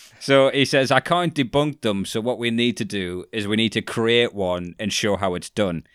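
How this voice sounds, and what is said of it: Usual voice. Nothing is said of it.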